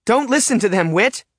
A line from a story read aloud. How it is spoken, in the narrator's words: Sasha shouts over the crowd